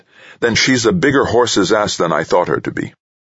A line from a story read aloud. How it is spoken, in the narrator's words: Jamil immediately snapped